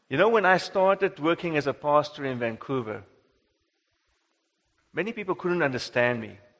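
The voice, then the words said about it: South African accent. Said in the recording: “I have an accent ... back in South Africa, no one would think I have an accent”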